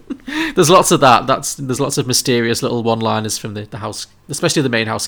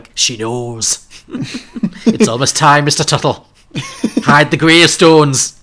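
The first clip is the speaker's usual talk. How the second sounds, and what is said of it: Inconsistent put-on accent. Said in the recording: “My accent's all over the place.”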